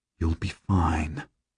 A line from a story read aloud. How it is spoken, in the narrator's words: I murmur to her